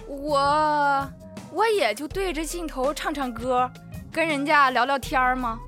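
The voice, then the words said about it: Strong regional accent. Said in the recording (Chinese): “您的口音实在是……”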